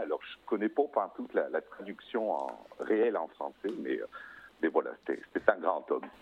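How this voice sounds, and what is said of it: Quebec French accent. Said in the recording (French): “ce merveilleux accent. Je me disais, mais ça me change de d'habitude ... cet accent-là ... je suis québécois”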